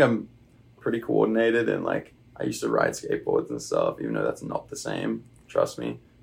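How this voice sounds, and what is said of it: Usual voice. Nothing is said of it.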